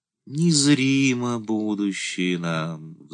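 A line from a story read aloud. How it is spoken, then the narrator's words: Sighing. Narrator (Russian): вздохнула Ярославна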